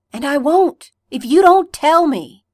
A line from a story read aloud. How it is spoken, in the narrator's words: Derek roared